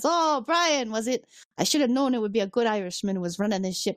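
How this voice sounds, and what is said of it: Put-on Irish accent. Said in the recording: “I said I wasn't going to do an Irish accent... you gave that up immediately. Not even one line in.”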